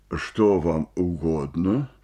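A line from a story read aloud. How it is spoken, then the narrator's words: Deep bass voice. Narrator (Russian): спросил актер басом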